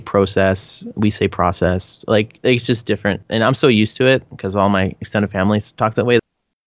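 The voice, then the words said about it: Canadian accent. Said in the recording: “I get made fun of so much for the, my, my Canadian accent.”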